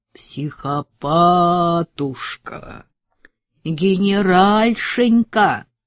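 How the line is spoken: Mock nasal drawl. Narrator (Russian): нарочито гнусавя и растягивая слова, проговорил Рахманин

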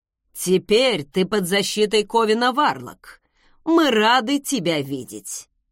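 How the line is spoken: Genial booming voice. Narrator (Russian): С благодушной улыбкой прогудел отец

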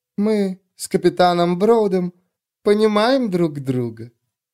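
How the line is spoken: Soft. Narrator (Russian): мягко произнесла судья

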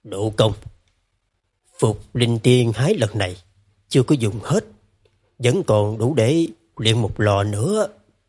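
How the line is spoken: Big man speaking softly. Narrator (Vietnamese): Đại hán Đường Phong khẽ nói

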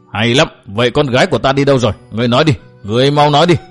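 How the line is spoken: Shouted demand. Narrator (Vietnamese): Vân Đạt quát hỏi tiếp

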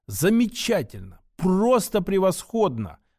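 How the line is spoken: Excited exclamation. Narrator (Russian): воскликнул Аркадий

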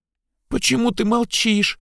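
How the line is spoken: Squeaky question. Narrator (Russian): спросила она писклявым голосом

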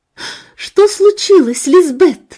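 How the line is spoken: Exclamation. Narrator (Russian): воскликнула Сильвия

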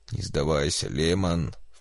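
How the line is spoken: Low-voiced plea. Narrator (Russian): вполголоса попросил Энрике

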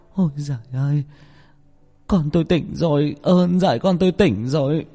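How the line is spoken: Tearful mother. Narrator (Vietnamese): Người mẹ ... mếu máo

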